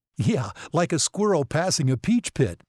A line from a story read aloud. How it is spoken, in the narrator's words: Meg said, laughing